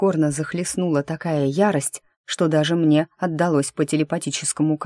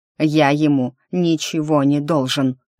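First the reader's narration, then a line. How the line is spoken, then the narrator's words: Barking. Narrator (Russian): рявкнул он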